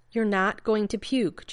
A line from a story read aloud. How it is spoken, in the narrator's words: Jeannie said firmly